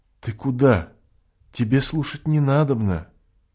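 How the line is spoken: Calm. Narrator (Russian): Надежда спокойно сказала

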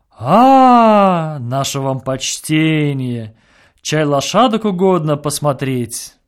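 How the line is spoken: Singsong drawl. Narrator (Russian): нараспев произнес

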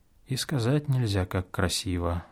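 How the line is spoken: Sighing. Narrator (Russian): вздохнул Иероним

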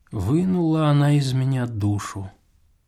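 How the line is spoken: Whispered to himself. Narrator (Russian): шептал он самому себе

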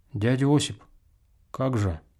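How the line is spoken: Quiet timid question. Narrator (Russian): Кто-то из молодых парней спросил, тихонько и робко

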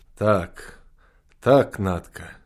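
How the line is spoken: Quiet reply. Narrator (Russian): тихо ответил Алька

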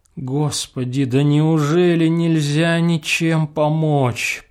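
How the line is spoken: Moaning. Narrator (Russian): простонала Ольга Ивановна

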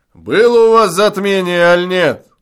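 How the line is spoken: Distant shout from bushes. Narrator (Russian): крикнул из-за кустов пастух

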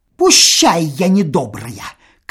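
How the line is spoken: Angry shout. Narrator (Russian): крикнула она и сердито

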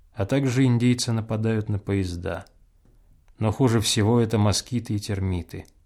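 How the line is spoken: Sad, smiling. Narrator (Russian): Чечевицын грустно улыбнулся и добавил

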